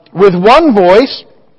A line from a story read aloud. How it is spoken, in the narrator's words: they cried out